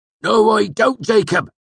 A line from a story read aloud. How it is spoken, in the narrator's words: Cobb snapped